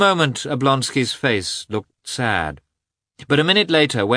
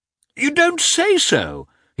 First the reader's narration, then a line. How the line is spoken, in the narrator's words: he exclaimed, when the princess told him that Vronsky was going by that train